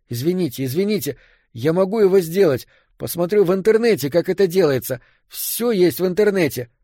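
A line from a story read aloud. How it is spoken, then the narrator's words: Nonstop babbling. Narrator (Russian): лепетал я и, казалось, не мог остановиться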